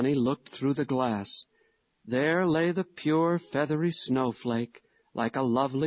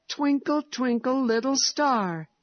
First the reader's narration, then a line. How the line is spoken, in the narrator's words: he cried in delight